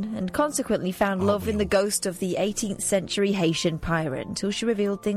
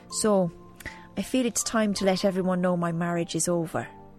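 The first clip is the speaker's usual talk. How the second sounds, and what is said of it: Put-on Irish accent. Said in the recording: “Do the accent. ... Apologies to Ireland.”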